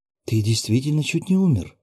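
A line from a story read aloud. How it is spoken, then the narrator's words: Frightened young woman. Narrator (Russian): испуганно проговорила девушка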